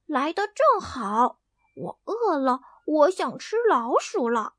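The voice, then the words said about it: Quiet mumbling. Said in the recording (Chinese): “小声嘟囔”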